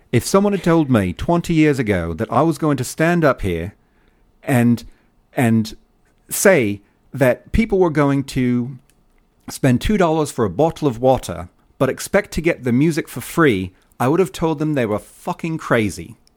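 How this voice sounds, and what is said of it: Bad imitation English accent. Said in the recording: “my bad English accent”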